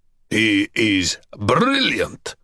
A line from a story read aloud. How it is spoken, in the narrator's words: Borovitz growled